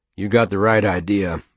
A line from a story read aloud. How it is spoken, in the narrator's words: Bo said